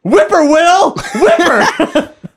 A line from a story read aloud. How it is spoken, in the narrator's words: they'd run around screaming